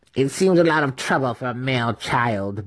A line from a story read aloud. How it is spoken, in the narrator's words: Brisa grumbled